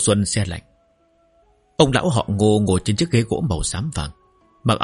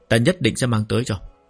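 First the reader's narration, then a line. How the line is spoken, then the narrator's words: Warm smiling. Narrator (Vietnamese): Ninh Uyển nghe xong không khỏi cảm thấy mềm lòng, đối với thiếu niên này cũng có vài phần thiện cảm, mỉm cười nói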